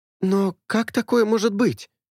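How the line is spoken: Frightened exclamation. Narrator (Russian): испуганно воскликнула Джиэль

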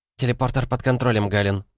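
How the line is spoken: Rapid chatter. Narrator (Russian): затараторила Веснушка

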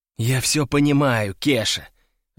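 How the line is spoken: Sighing. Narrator (Russian): вздохнул я

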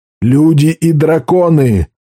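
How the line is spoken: Roar. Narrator (Russian): взревел Каркало

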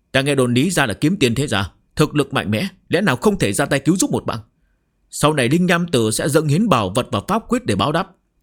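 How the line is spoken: Hurried desperate shout. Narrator (Vietnamese): linh nham tử bị hai người tấn công dữ dội, khó có thể chống đỡ lâu dài, vội vàng hét lớn

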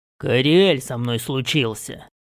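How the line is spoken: Strong male voice. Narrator (Russian): произнес я не своим голосом скелета, а сильным мужским голосом

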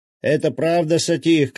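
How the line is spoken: Shout. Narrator (Russian): крикнул он

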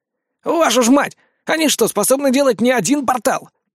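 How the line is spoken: Shouting over magical cannon fire. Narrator (Russian): Где-то возле меня, перекрывая раскаты работающих магических орудий, прокричал Фома

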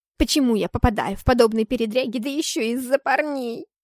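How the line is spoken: Grumbling like an old woman. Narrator (Russian): Ворчала я, подобно бабуле

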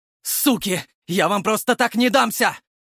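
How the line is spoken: Furious yell. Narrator (Russian): заорал Костик

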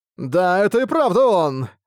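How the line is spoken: Amazed exclamation, prince. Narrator (Russian): Воскликнул в изумлении наследный принц

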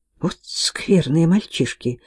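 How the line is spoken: Muttered. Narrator (Russian): пробормотала Кей

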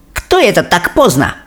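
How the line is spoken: Witch's sharp displeased question. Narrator (Russian): резко и недовольно спросила великая ведьма

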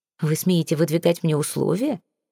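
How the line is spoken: Laughing. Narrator (Russian): рассмеялся он

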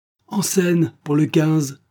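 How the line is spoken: Stage manager shouting. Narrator (French): cria le régisseur dans l'escalier

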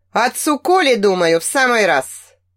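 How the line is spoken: Smirking reply. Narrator (Russian): хмыкнул в ответ Ансгар

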